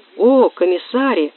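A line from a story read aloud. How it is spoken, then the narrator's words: Exclaiming. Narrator (Russian): воскликнула Финка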